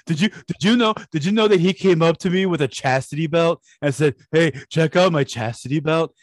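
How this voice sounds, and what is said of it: Imitates another person's voice. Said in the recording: “It's not the best impersonation”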